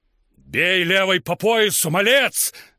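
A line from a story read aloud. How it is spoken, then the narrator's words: Several voices shouting. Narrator (Russian): закричали они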